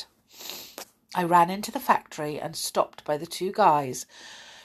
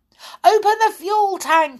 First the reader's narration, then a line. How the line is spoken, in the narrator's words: I shouted eagerly